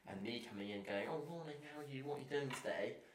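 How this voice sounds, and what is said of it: English accent. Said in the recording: “In my fucking English accent.”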